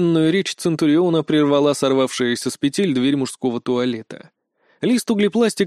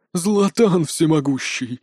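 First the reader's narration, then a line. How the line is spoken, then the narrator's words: Horrified breathless gasp. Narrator (Russian): выдохнул Лат с ужасом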